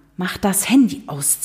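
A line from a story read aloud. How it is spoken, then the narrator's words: Hissed. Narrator (German): zischte er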